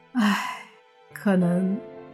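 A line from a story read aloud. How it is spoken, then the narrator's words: Sighing. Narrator (Chinese): 他叹了口气，说道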